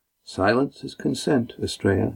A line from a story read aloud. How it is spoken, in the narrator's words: murmured Lindy